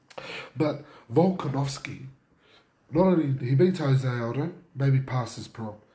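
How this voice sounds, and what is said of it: Husky, hoarse voice. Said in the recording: “I feel like I'm losing my voice here... if it's a little bit husky”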